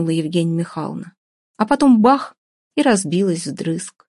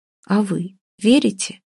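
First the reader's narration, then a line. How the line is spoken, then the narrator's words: Quiet question. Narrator (Russian): тихо спросила Оля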